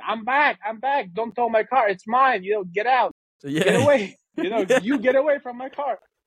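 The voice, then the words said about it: Shouting. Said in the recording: “I'm screaming”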